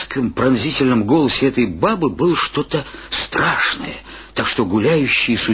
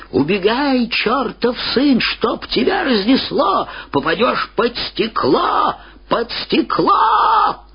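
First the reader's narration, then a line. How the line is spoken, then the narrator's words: Shout, old woman. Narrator (Russian): старуха закричала ему вслед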